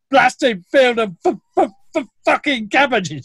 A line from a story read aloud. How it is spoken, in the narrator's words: had a stammer